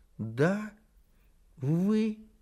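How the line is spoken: Sad repetition. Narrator (Russian): Грустно повторил крольчонок

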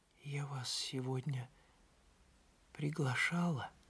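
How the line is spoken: Whisper. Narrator (Russian): прошептала

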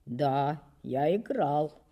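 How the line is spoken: Hoarse, timid reply. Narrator (Russian): ответил он голосом несколько сиплым от мороза и от робости

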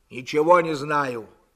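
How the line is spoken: Angry. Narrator (Russian): сердито сказал Длугач

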